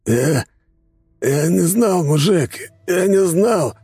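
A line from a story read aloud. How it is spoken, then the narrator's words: Dying man's hoarse wheeze. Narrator (Russian): прохрипел полутруп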